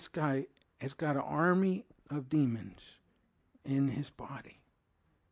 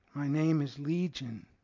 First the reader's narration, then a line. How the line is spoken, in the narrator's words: replied